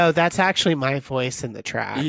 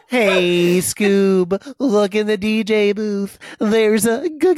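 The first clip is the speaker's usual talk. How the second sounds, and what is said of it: Cartoon character Shaggy impression. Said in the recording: “That was an iconic impersonation.”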